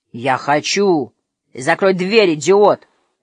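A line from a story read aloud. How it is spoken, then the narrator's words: Barked shout. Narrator (Russian): рявкнул Супер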